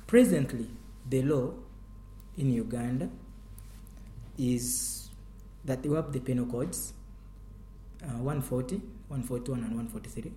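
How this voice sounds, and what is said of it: African-accented English. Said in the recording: “My accent is typical African.”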